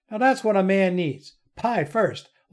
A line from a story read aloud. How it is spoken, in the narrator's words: laughed